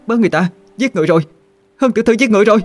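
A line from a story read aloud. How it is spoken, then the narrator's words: Loud panicked scream. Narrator (Vietnamese): hét toáng lên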